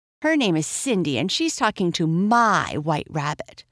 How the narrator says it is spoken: the girl snapped

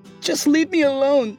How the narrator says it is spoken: she pleaded

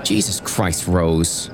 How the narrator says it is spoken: she snapped

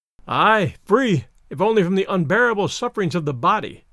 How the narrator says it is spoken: comes in a sigh through time

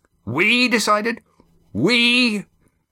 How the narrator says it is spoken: Roaring Jack repeated incredulously

